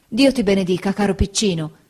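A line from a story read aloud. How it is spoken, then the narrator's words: Exclaiming. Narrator (Italian): esclamò Peggoty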